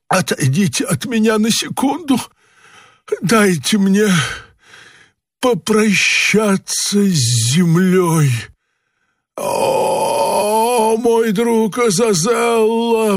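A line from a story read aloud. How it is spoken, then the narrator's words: Wounded groaning. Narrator (Russian): простонал кот, истекая кровью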